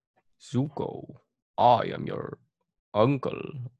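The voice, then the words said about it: Poor Uncle Iroh character impression. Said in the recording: “not a good Uncle Iroh impression”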